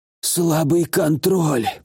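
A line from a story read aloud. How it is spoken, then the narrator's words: Hoarse rasp. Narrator (Russian): прохрипел он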